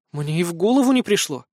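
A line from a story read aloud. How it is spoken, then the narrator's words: Bewildered sigh. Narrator (Russian): растерянно вздохнула Мэри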